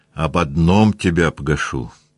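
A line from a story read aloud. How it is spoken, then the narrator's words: Stern. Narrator (Russian): сказал он строго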